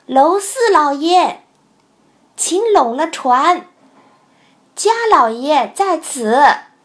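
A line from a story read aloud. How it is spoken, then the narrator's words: Calling out. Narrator (Chinese): 船头上一个人叫道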